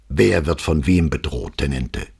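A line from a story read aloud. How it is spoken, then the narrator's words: Gruff question. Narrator (German): fragte Brunetti barsch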